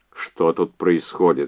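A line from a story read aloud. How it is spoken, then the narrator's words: Stern, lecturing teacher tone. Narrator (Russian): спросил он назидательным и строгим тоном преподавателя колледжа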